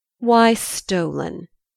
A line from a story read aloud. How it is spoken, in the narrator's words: coolly said, with a slight touch of irritation